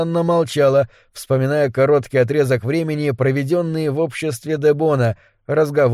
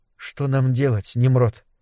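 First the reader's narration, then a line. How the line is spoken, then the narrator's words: Barely audible. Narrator (Russian): Едва слышно произнесла она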